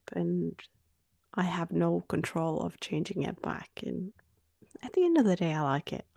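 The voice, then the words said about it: Australian-tinged Norwegian speaker's accent. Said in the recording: “my accent is Australian ... you have such a Norwegian accent to Australians ... to Norwegians, I'm sure you sound very Australian”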